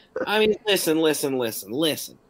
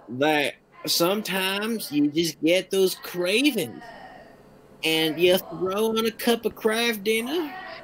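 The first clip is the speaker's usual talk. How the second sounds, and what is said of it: Put-on Southern accent. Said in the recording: “in my best Southern accent ... I don't know why I'm doing Southern accent”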